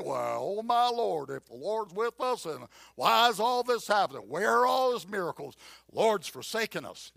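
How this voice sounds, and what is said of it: Put-on Southern US accent. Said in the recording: “southern, with a southern accent. ... he had that kind of southern thing going on.”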